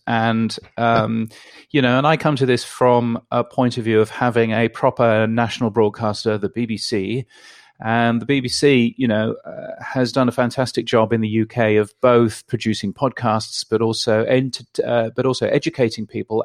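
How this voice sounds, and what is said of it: British accent. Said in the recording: “I'm a Brit, as you can tell from my ridiculous accent.”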